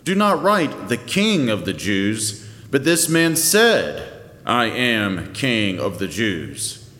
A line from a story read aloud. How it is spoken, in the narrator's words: Pilate answered